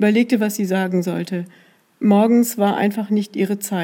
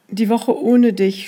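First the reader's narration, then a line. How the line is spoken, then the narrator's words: Stammering. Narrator (German): stammelte sie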